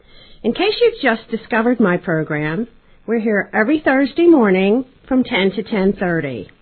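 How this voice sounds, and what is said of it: Breathless, out-of-breath speech. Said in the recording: “I'm out of breath”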